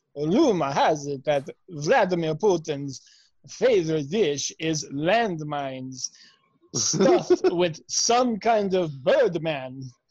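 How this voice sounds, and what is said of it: Vampire voice. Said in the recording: “your accent is vampire.”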